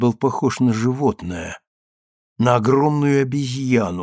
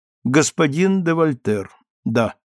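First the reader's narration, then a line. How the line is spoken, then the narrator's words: Calm. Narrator (Russian): Она произнесла спокойно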